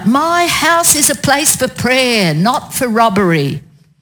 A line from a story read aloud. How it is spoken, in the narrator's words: He shouted out